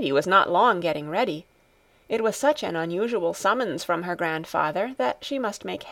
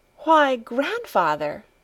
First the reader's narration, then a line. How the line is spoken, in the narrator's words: she exclaimed